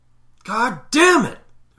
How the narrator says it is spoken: father shouted over the growl of monster trucks on the TV

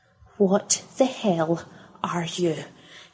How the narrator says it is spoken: hissed Pippa

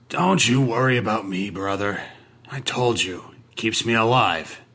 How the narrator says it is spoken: he grumbled

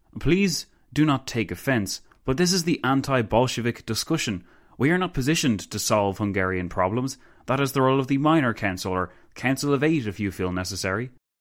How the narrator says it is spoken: Pilsudski sighed

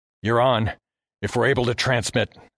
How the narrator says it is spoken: told through gritted teeth

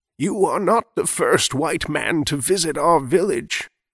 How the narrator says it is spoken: she answered, her voice like dry leaves rustling in the wind

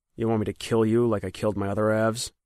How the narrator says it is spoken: asked in a flat voice

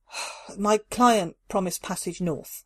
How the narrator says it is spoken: Carla sighed

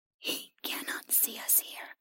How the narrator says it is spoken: the creature whispered to her

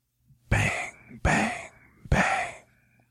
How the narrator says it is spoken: whispers, her brow relaxed

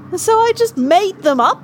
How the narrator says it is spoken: Terry raised her voice

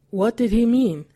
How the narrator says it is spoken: Hetson asked

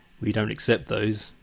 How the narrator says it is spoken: mutters

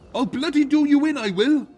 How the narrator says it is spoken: hollering

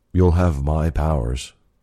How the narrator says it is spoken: I said

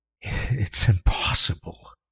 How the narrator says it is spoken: he breathed

